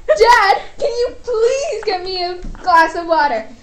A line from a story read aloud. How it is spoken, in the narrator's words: the boy screamed